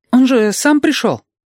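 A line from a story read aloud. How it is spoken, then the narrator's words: Slightly frightened boy explaining. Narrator (Russian): мальчишка слегка испуганно объяснил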